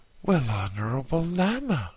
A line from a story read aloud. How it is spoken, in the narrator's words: exclaimed excitedly